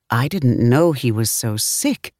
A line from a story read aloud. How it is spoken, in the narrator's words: Quincy repeated over the phone, his voice quivering